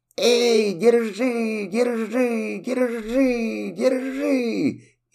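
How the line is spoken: Shouting while running. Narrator (Russian): кастрюля на бегу закричала утюгу

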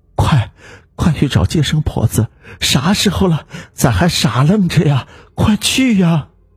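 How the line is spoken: Woman in labor, panting heavily. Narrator (Chinese): 产妇大口大口的喘着粗气，对男人说

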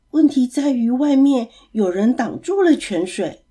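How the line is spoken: Very quiet whisper. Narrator (Chinese): 水井居然小小声的跟他说

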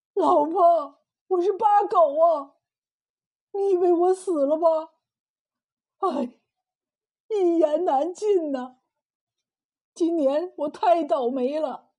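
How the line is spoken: Crying. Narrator (Chinese): 他哭着说道

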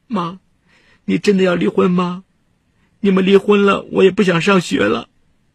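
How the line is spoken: Daughter crying. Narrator (Chinese): 大女儿孟红哭道

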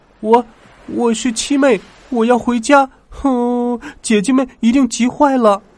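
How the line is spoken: Crying little girl. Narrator (Chinese): 小女娃哭着说

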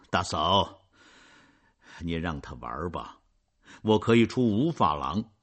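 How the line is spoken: Smiling. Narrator (Chinese): 冉阿让带着笑容说

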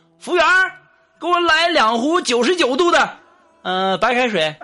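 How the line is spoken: Shouting. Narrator (Chinese): 我这哥们儿就喊了

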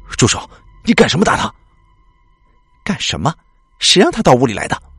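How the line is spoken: Furious loud shout. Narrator (Chinese): 怒火腾的一下子窜满了整个胸膛，韩伟对他大声喝道

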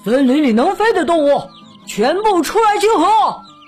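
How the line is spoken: Loud shout. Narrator (Chinese): 老鹰 大声吼道

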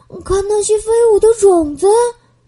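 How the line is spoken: Delighted laugh. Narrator (Chinese): 美宝笑了

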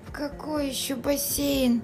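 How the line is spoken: Sleepy mumble. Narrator (Russian): сонно пробормотал папа

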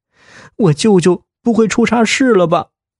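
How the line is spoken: Crying question. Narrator (Chinese): 小燕一边哭一边问

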